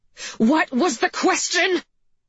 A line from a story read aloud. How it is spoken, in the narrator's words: McKee screamed again